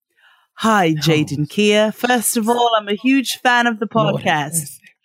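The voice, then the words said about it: Put-on British accent. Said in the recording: “I feel like I should be reading this honesty box with a British accent.”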